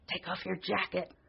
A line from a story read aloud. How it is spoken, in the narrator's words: hissed Dan